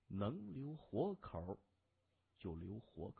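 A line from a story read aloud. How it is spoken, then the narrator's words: Lowered voice. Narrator (Chinese): 在他耳边压低声音说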